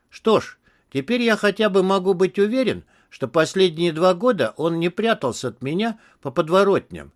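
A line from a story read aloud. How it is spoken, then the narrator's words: Plain. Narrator (Russian): сказал Тони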